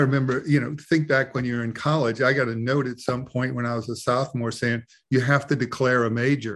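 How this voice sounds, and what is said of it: Usual voice. Nothing is said of it.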